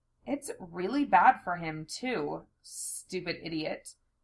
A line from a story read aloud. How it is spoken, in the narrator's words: I murmured